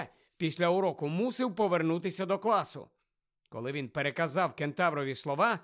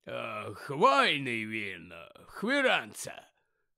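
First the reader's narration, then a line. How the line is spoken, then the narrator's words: Hoarse voice. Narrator (Ukrainian): хрипло сказав Гегрід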